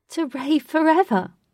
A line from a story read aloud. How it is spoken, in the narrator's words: Katie said with uncontrollable laughter